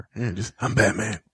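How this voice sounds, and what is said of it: Lowered Batman voice. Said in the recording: “He just lowers his voice. He'll take it down here.”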